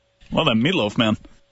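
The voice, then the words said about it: Imitates another person's voice. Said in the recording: “limited fake John Gruden ... an incredibly limited impersonation”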